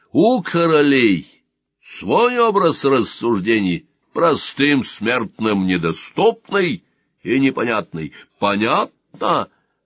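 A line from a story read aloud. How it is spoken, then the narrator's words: Angry uncontrolled bark. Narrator (Russian): рявкнул он, не сдержавшись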